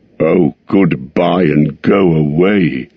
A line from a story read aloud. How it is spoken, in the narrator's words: grunted the dwarves, all the more angry because they were really filled with dismay at losing him